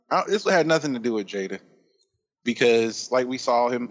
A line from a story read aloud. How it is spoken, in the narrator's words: he laughed